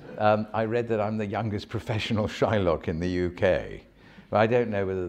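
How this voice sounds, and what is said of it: Deep character-actor voice. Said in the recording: “if you hear my voice, it's not that, I mean, it's a deep voice. It's more of and suited to character work.”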